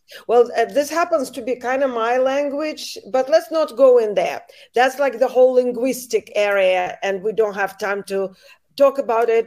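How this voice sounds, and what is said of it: Natural foreign accent in English. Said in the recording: “I don't even have to fake the accent. You wanted an accent? Here I am. ... I don't try to speak with accent. That's how I naturally speak.”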